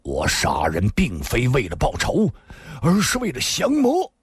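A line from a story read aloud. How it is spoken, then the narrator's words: Angry. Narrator (Chinese): 新建大师怒声说道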